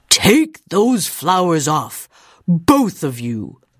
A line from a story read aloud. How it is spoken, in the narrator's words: he boomed